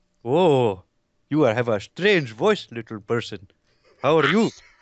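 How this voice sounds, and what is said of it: Put-on Pakistani Indian accent. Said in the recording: “I'm speaking in my normal Pakistani Indian dialect.”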